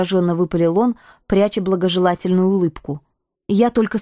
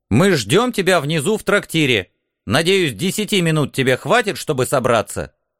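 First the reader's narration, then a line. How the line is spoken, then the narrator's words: Stern reminder. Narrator (Russian): строгим голосом напомнил командор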